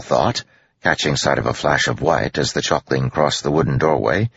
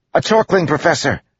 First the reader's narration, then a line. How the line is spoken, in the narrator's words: he yelled